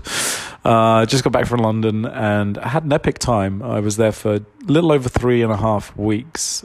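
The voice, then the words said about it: Congested, blocked-up voice. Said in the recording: “I'm a bit congested. I'm a bit blocked up. I have a cold.”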